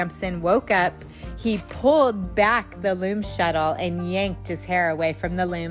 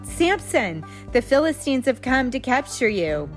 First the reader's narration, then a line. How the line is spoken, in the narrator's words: she cried out